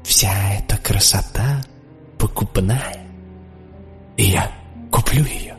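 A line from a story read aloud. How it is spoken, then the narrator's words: Whisper to oneself. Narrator (Russian): я шепнул себе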